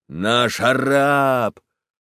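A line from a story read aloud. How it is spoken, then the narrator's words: Frenzied shout, huge lad. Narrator (Russian): огромный рыжий малый и закричал неистовым голосом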